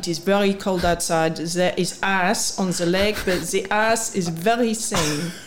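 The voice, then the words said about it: Put-on French accent. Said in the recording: “a French accent ... It was a brilliant French accent. ... I thought that was a pretty good accent”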